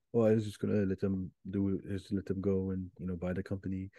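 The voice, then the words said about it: Good impression of a TV character. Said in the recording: “that's such a good Mattson impression.”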